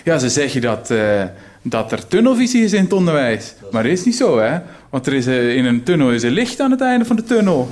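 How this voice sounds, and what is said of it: Put-on Flemish-sounding accent. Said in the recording (Dutch): “in het Limburgse accent doen. Maar ik wil het niet goed doen. ... Dat was Vlaams trouwens.”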